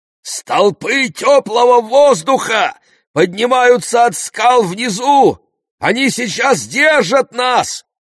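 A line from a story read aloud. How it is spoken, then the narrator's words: Shouted. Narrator (Russian): прокричал он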